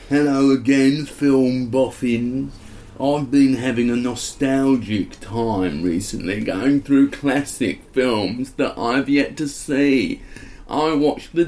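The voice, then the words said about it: Put-on surfer stoner accent. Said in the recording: “Just do a surfer's accent ... Maybe like a stoner”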